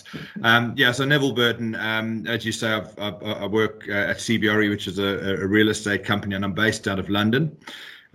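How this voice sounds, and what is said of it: South African accent. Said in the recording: “as you can probably hear, I'm South African. That's the accent you're picking up”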